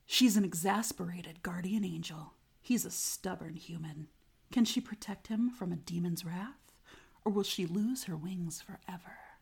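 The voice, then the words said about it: Dramatic book-reader narration voice. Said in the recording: “I'm going to do it in my book reader voice. ... That's my voice.”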